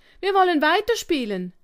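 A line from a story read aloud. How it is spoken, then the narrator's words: Called out. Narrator (German): rief Fips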